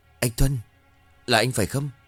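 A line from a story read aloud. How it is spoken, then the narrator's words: Trembling question. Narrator (Vietnamese): run rẩy hỏi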